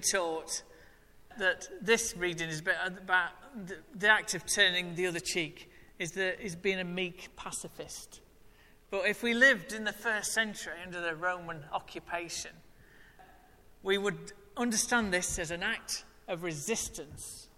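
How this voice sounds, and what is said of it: Northern English drawl. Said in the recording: “natter and natter in that horrible drawl that you call an accent ... you are from the north”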